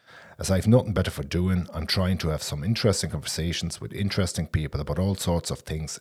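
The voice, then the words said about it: Odd German-accented English. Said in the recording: “being originally from Berlin, which may explain my odd accent”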